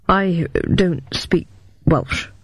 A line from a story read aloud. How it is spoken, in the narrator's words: murmured Mycroft